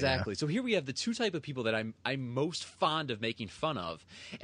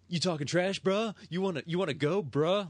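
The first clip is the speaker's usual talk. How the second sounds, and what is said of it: Fake California accent. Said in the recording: “some fake California accent”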